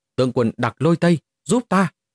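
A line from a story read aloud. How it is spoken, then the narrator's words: Terrified loud cry. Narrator (Vietnamese): Mục Thiên Hoa lập tức quá sợ hãi, cao giọng hô to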